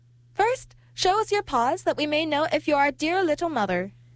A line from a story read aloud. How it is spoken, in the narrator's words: The little sheep cried out